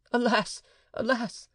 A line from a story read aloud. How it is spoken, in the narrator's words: cried the sufferer